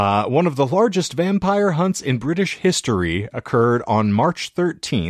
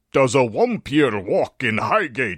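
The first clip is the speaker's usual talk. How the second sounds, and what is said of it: Reads a line in a put-on accent. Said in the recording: “I don't know why I gave it that accent, but I elected to. It was fun.”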